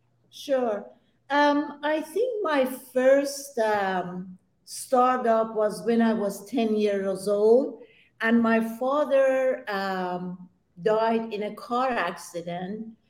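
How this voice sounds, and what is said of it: Persian accent. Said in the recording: “where is that accent coming from? I'm Persian, and I was born in Iran.”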